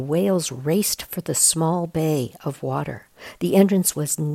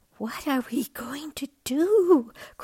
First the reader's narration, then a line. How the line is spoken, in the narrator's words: cried Bella